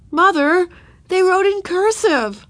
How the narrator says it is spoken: she cried, delighted

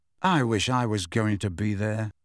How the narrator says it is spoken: said Harry bitterly

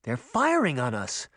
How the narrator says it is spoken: Sabrina exclaimed

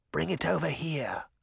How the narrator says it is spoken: Charming whispered

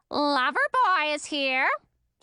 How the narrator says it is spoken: screeched the bird in a grating voice

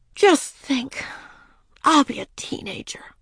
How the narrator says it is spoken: Ramona said dreamily

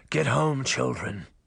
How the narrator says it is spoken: he said roughly

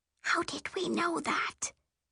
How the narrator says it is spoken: She whispers

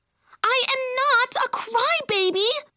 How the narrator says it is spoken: she yelled

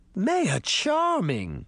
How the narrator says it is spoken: Granny Relda exclaimed

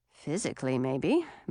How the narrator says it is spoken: muttered

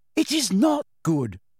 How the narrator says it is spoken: said Hermione hotly

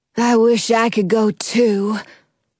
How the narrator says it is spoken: Cliff says sadly

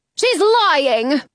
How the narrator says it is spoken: Gluck yells

